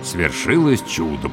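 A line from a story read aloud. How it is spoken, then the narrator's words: Muttered. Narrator (Russian): пробормотал я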